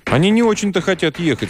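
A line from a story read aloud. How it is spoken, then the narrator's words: Plain. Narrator (Russian): сказала сестра Джоао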